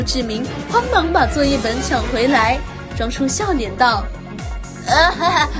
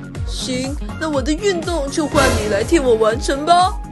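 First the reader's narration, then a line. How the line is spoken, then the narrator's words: Cheerful smiling agreement. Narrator (Chinese): 黄子琪笑眯眯的一口答应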